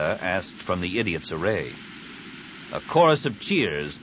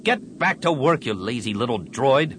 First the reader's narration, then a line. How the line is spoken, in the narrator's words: Venn snapped over his shoulder